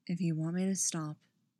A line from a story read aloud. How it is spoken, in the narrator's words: he says softly